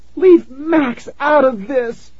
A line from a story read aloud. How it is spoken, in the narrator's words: Tara screamed